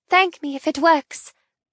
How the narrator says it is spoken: tell her tightly

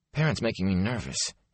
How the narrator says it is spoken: he muttered

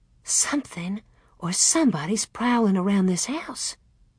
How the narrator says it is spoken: Mother breathed

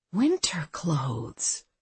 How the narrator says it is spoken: Abby said to herself in a trailing voice

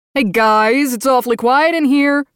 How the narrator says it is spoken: Austin howled

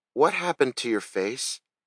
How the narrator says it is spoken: she asked in a timid, scared voice

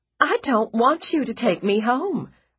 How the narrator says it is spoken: Margaret said desperately

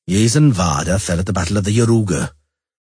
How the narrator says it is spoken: Zoltan informed them dryly

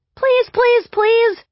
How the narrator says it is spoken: I yelled at her

